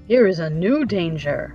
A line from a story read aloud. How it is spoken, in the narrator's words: remarked Jack gloomily